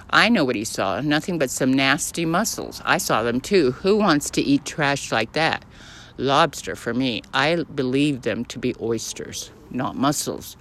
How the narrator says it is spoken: returned Ernest calmly

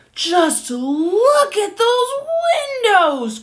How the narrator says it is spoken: cried the monkey

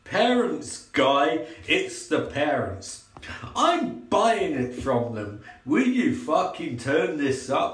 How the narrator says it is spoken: He snaps but distractedly

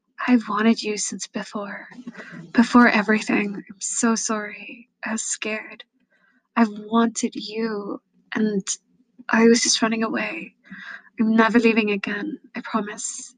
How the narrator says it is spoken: whispering

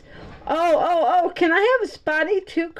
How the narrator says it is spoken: cried Mike

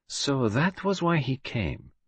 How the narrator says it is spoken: murmured Poirot

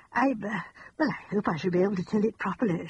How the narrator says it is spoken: she said anxiously

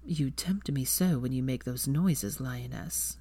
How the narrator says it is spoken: Draco said huskily

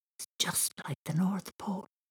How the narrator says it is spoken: Thomas whispered

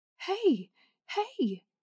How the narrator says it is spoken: calls, yelling over the sounds of the storm

